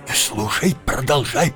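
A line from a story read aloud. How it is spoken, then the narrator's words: Whisper. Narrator (Russian): прошептал Джонни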